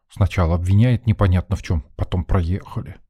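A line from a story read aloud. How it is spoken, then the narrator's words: Grumbling mutter. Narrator (Russian): буркнул Женька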